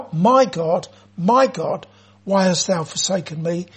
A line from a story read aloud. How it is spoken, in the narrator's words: Jesus cried out